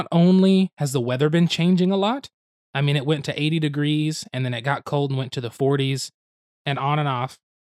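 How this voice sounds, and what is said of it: Slightly raspy voice. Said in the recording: “we're a little raspy today”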